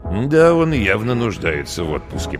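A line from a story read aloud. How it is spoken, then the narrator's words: Muttered, colonel. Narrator (Russian): пробормотал полковник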